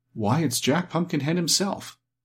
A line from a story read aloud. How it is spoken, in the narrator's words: Dorothy exclaimed